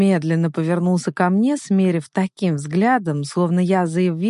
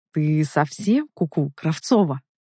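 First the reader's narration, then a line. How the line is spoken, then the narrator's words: Irritated, restrained anger, clipped. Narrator (Russian): Процедил он раздраженно, явно сдерживая гнев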